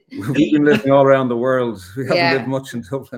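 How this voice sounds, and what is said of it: North Dublin Irish accent. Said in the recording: “You can probably tell from our accent, we're from Dublin, North Dublin.”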